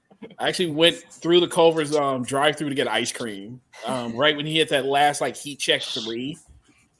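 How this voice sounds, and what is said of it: Dallas Texas accent. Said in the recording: “is so from Dallas with that accent. That is a Dallas accent. It's not just a Texas accent.”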